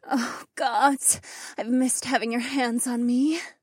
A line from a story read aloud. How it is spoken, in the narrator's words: Polina moaned